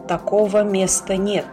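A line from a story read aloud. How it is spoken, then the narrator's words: Gloomy. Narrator (Russian): Он мрачно добавил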